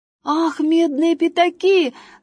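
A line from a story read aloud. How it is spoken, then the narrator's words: Shout. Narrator (Russian): закричал Василек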